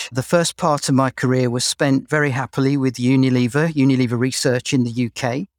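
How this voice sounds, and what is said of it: English accent. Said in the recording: “You can probably tell from my accent that I'm English.”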